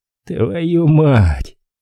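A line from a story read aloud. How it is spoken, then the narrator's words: Warrant officer's weary exhale. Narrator (Russian): устало выдохнул прапорщик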